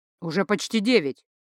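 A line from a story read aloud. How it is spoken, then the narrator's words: Irritated announcement to crowd. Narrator (Russian): раздраженно куда-то в массы произнес лектор Нель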